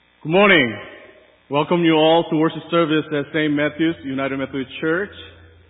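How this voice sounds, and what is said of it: Distinctive accent. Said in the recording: “I have a very unique accent”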